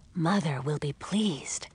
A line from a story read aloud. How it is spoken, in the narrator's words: whispered Pearl